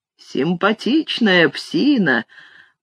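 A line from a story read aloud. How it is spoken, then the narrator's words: Strange muttering tone. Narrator (Russian): пробормотал Зигфрид, но тон его был странным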